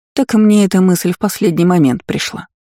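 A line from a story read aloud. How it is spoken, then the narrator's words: Sincere sigh. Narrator (Russian): совершенно честно вздохнула королева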